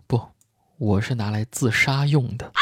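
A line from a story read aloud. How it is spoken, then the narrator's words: Sighing. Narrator (Chinese): 杰克叹了一口气说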